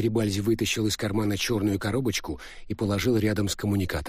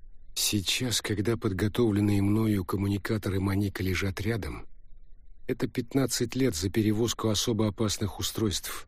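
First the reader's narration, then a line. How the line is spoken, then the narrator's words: Thoughtful tone. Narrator (Russian): задумчивым тоном произнес Пинкмастер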